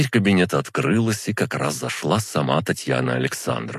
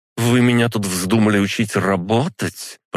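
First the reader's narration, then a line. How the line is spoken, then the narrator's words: Through gritted teeth. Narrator (Russian): процедила она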